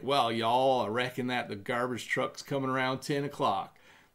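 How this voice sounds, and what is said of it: Bad put-on Southern American accent. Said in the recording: “we pretend that we have a Southern accent ... my really bad Southern American accent.”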